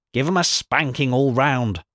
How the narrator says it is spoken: snapped out

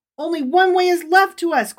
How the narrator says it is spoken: cried Rabbi Israel

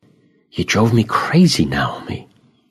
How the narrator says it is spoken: I say softly

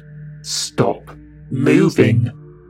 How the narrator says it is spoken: she bellowed

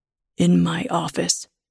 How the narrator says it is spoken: he says in a low voice

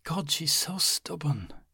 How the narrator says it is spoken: Liz said in enough of a whisper to keep their conversation private

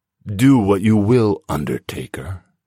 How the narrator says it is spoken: Igor rasped

